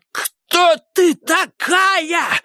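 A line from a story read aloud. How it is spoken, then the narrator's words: Yelling. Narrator (Russian): Заорала Тассел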